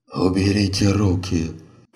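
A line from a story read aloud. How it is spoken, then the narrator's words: Exhausted hoarse wheeze. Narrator (Russian): Прохрипел Танака из последних сил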